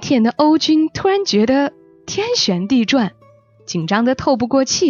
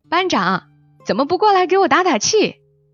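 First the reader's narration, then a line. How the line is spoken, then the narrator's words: Calling across a crowd. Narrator (Chinese): 三分男竟然越过人群对他喊了一句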